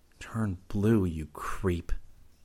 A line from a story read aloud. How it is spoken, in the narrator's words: muttered